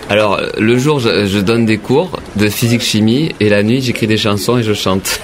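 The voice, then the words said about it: Southwestern French accent. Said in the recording (French): “qu'est-ce que c'est que cet accent que vous avez ? ... il vient du sud-ouest”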